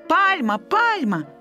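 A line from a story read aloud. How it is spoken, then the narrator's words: Joyful shout. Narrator (Belarusian): крычаў радасна Толя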